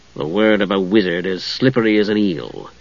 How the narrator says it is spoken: Steele said, sneering

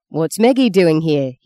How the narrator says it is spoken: snarled, not quite down from the exultation of the ring

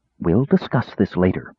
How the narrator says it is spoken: To her tearful daughter, she said quietly

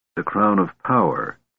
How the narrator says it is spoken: Kitiara murmured

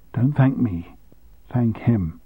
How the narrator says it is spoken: whispered

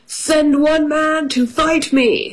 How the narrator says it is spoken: shouted the giant

